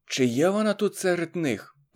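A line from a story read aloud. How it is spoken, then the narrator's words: Whisper. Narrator (Ukrainian): прошепотіла пані Затурецька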